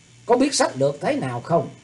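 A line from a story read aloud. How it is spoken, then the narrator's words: Glaring barked question. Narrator (Vietnamese): Thủy Tuấn Hạo quát mắt lên hỏi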